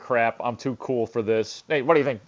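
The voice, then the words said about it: Burt Reynolds impression. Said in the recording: “Norm Macdonald did do Burt Reynolds on there which was yes. incredible. Like this ... it was a great impersonation.”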